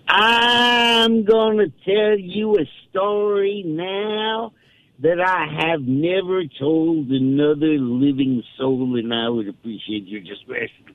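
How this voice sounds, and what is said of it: Phil Graham impression, big drawl. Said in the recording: “Graham leaned back in his chair and said in his big drawl”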